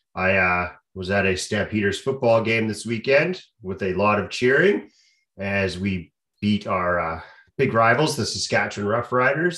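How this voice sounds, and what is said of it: Slightly hoarse voice. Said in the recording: “I've got a little bit of the Jeff Probst going on. My throat's a little hoarse. ... my throat's a little sore today”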